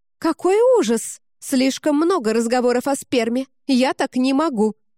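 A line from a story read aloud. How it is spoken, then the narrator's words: Near shout. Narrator (Russian): почти выкрикнула Каори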